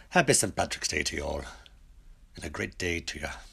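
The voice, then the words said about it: Attempted Irish accent. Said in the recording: “I'm trying this Irish accent. ... I'm no good anymore at Irish.”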